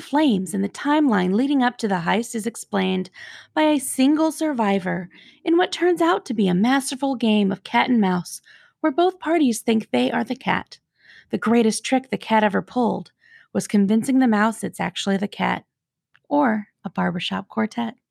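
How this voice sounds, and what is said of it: Imitates a public radio announcer voice. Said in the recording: “Your NPR voice is a little bit off this time”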